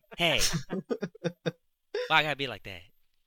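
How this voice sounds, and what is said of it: Imitates another person's voice. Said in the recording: “That's actually pretty good impression.”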